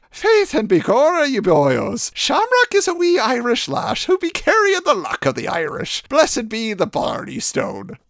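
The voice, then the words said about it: Exaggerated stereotypical Irish accent. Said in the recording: “Let's turn off the Lucky Charms accent for a bit”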